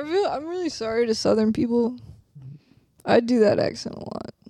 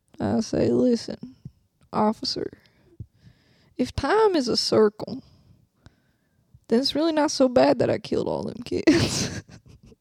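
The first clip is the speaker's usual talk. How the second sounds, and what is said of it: Put-on Southern accent. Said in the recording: “I'm really sorry to Southern people. I do that accent a lot. ... You're not a Southern Belle.”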